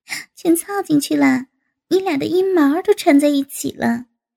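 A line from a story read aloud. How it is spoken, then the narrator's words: Laughing. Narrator (Chinese): 王丹笑道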